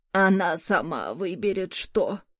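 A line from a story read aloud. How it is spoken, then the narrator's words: Angry grumble. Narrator (Russian): сердито буркнула Морган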